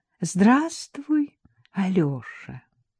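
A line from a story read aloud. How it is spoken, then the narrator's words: Forced affectionate, smiling. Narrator (Russian): улыбнувшись, проговорила Катя старательно ласково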